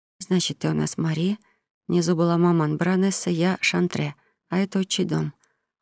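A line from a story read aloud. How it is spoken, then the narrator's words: Glum statement. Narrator (Russian): уныло констатировала Тамара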